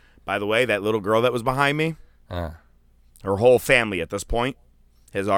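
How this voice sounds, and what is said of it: Usual voice. Nothing is said of it.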